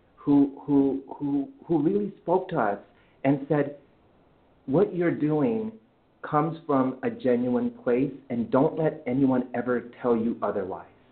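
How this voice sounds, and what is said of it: Emotional, choked-up voice. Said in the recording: “oh no, I'm getting emotional.”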